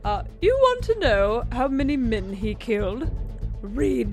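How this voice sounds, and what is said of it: Put-on posh English accent. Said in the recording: “in the Queen of England accent”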